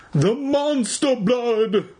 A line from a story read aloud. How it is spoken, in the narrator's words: Evan cried